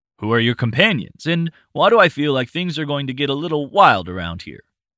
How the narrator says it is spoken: Roland chuckled

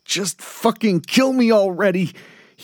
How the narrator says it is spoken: yelled out, just wanting it done

